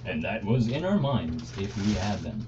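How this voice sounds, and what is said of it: Put-on podcast host voice. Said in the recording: “my podcast voice”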